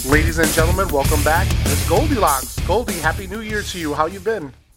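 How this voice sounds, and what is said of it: Warm, deep radio voice. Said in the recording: “what a radio voice I'm greeted with. Such warmth and depth”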